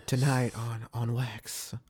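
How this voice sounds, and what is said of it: Put-on sexy voice, creepy. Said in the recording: “give us a sexy voice real quick? ... That sounded creepy.”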